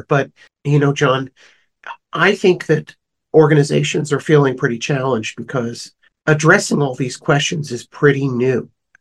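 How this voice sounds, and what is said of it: Slightly rough, hoarse voice. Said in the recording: “my voice is a little rough. I'm getting over a cold here.”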